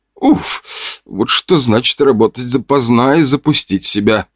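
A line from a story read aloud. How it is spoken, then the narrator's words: Groaned. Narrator (Russian): Простонала она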